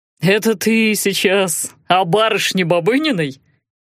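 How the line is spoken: Smirking. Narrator (Russian): Мамаев хмыкнул

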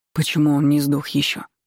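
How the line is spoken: Surprised mutter, hulking speaker. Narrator (Russian): Удивленно пробормотала гора мышц

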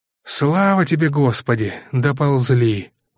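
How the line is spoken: Tired remark. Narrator (Russian): устало обронил офицер

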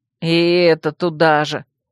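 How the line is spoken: Offended grumble. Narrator (Russian): обиженно проворчал Вемут

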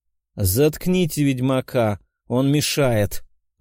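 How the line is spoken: Barked growl. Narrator (Russian): рыкнул кардинал

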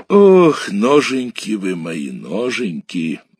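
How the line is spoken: Muttering. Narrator (Russian): бормотал Шорник

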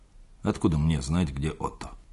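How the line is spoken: Muttered. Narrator (Russian): пробормотал он

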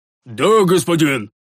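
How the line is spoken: Shouted reply. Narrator (Russian): прокричал в ответ воин

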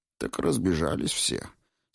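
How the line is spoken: Sleepy statement. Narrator (Russian): сообщил Деций, сонно

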